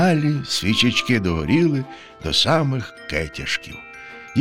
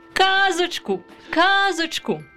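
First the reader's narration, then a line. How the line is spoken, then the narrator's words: Children shouting. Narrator (Ukrainian): закричали діти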